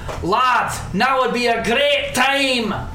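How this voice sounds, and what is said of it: Shouting. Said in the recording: “you're shouting”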